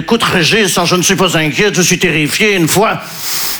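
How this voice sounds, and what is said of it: Put-on Belgian French accent. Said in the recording (French): “Oui, là je prends l'accent belge parce que je ne sais pas faire l'accent ukrainien.”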